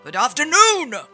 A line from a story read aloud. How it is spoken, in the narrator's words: Scrooge yelled